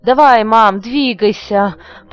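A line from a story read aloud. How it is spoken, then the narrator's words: Uncontrolled moan. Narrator (Russian): простонал Юра, не в силах сдерживаться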